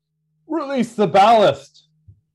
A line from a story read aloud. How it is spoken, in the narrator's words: he yells to you, Jack